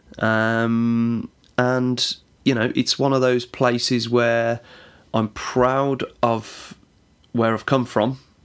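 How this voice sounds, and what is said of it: West Midlands regional English accent. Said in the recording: “as you could probably hear from my voice, if you're from the UK, you'll know about the regional accents. ... Just north of Birmingham, there's a place called Walsall”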